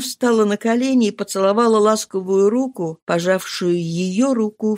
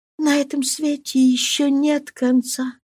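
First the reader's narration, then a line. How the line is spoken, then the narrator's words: Whisper, female. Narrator (Russian): шепнула она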